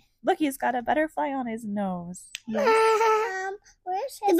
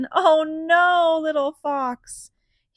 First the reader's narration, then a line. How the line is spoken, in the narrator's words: He cried